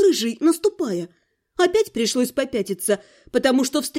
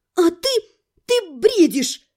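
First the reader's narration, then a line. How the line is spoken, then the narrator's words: Desperate brave squeak. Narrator (Russian): с отчаянной смелостью пискнула я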